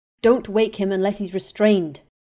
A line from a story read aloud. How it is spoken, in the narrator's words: Remus snapped